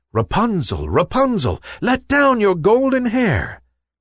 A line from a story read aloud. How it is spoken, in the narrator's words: the prince called out